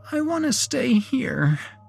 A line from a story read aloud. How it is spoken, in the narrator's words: whimpered Vivi